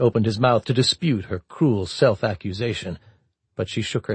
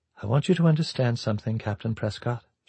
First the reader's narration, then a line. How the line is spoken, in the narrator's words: she said softly